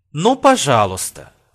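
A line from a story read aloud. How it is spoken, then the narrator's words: Exclamation. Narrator (Russian): воскликнула Луиза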